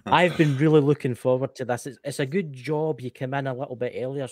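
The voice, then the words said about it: Scottish accent. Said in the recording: “understand my accent ... the Scottish gift of gab ... I'm Scottish”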